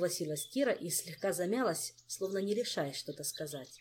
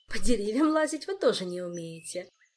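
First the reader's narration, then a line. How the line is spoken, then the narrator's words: Laughing girl. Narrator (Russian): засмеялась девушка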